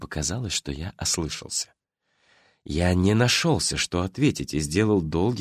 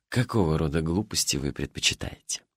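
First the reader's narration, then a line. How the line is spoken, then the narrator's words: Suddenly hoarse question. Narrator (Russian): спросил внезапно охрипшим голосом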